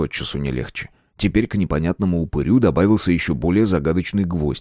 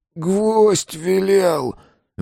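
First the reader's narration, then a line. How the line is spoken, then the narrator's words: Forced out, strained. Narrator (Russian): выдавил из себя он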